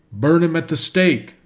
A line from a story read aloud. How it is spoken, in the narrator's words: shouted a great many